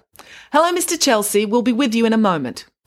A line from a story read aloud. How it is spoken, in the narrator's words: She called out across the counter